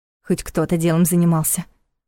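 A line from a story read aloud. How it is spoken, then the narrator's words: Gloomy mutter. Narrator (Russian): хмуро пробормотала Лиля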